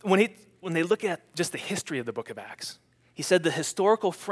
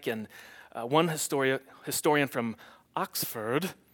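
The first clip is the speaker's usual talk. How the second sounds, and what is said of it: Put-on sophisticated Oxford-style accent. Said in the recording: “sounds better, right? When you say it, I don't even know what kind of accent that was. It's sophisticated. Oxford.”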